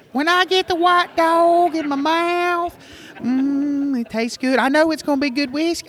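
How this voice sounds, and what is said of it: Impression of another person's voice. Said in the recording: “I'm going to impersonate Bob.”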